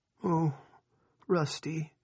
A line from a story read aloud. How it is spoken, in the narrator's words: Linda moaned